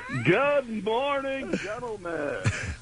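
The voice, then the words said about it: Old-school rock radio DJ voice. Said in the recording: “it's my rock and roll radio voice... We stopped talking like that in the '70s”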